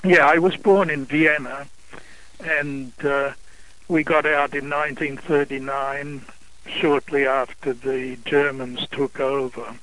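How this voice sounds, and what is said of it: Slight Australian accent. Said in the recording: “I detect the Australian accent ... Yes, there's a bit of it there.”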